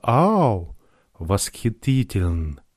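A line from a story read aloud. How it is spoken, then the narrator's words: Whisper. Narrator (Russian): Она прошептала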